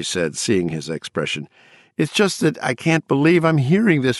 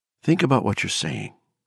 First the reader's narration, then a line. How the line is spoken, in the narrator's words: she said softly